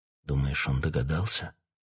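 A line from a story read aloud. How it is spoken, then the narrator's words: Whisper. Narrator (Russian): прошептал Питер Марлоу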